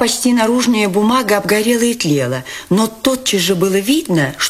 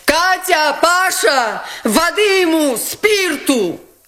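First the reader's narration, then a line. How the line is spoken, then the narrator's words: Shouted. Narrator (Russian): крикнула Настасья Филипповна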